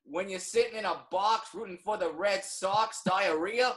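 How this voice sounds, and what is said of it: Exaggerated put-on Boston accent. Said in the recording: “That's the worst Boston accent.”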